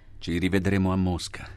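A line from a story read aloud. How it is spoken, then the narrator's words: Plain. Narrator (Italian): disse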